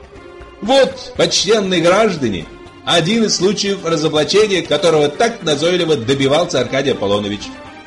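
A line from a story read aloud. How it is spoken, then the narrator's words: Shouting. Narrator (Russian): Подлый же Фагот, и он же Коровьев, прокричал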